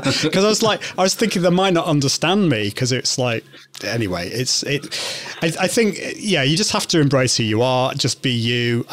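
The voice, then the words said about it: British accent. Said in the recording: “I'm from the UK. Can you understand my British accent?”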